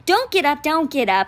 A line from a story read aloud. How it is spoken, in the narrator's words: cried